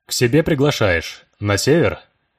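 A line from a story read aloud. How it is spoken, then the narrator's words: Nearly steady voice. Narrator (Russian): Уже почти нормальным голосом сумел спросить Влад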